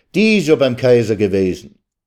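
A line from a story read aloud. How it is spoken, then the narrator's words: Called out. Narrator (German): rief man ihm entgegen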